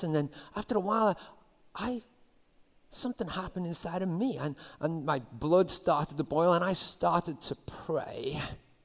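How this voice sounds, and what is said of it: Strong accent. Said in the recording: “You think my accent bad is bad now. It was really bad back then.”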